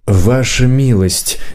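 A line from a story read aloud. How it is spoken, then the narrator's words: Gentle. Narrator (Russian): мягко сказал хозяин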